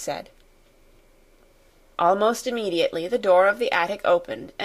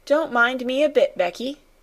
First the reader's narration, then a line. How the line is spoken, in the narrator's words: cried Ermengarde